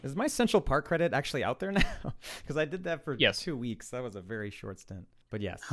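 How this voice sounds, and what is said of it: Usual voice. Nothing is said of it.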